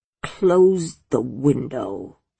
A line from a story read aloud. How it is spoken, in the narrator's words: she rasped